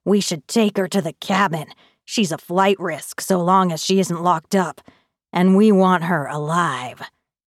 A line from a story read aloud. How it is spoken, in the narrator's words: one of the men growls